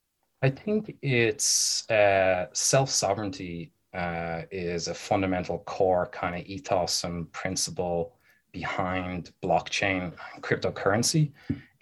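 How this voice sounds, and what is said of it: Irish Dublin accent. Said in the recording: “He's from Dublin, which is why he's got that nice accent.”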